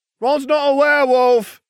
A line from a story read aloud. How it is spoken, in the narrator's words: Ginevra shouted